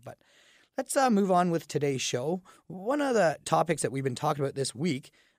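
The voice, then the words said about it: Groggy, slightly raspy voice. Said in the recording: “I sound a little groggy ... I have a little bit of a raspy voice”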